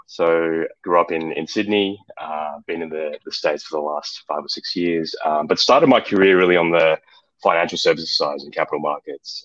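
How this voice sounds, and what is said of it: Australian accent. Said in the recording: “accent is from Australia”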